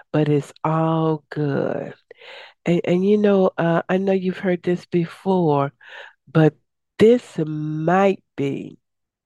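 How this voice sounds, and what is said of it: Deep, slightly raspy voice. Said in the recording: “I have my deep voice on today. I've been talking for 4 or 5 days, so my voice is a little raspy”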